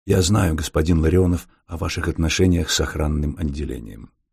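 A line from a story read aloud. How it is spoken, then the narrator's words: Quiet speech. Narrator (Russian): Фандорин обернулся к инженеру и негромко сказал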